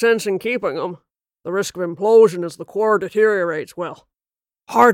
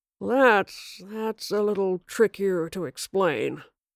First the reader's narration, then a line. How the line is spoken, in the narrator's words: Aubrey muttered